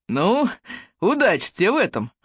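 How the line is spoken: Laughing. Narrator (Russian): засмеялся Эллиот

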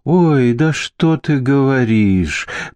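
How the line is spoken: Drawling, American accent. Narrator (Russian): протянул Эверар, выговаривая слова на американский лад

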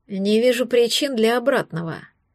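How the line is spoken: Sighing. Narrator (Russian): вздохнул он

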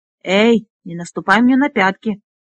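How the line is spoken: Hissed. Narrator (Russian): прошипел Флисан

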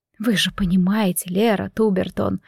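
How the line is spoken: Whisper, woman. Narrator (Russian): прошептала сестра Таисия

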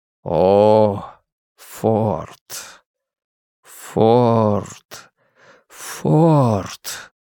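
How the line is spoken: Very slow, fading, lowering voice. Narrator (Russian): Очень медленно произносил он, постепенно понижаясь, убывая

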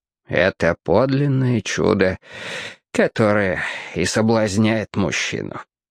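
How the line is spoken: Sighed, teacher. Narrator (Russian): вздохнул учитель

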